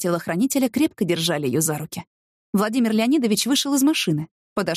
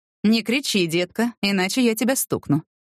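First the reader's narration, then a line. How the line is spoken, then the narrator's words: Completely calm. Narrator (Russian): совершенно спокойно сказал Владимир Леонидович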